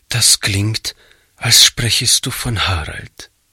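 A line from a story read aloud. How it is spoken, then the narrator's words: Quiet. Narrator (German): meinte Frau Jensen leise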